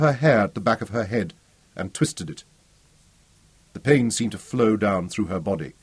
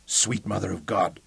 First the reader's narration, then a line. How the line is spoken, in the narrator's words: croaked ... the cord strained tight in his throat